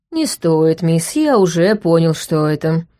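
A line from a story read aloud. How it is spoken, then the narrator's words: Weary. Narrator (Russian): устало произнес ректор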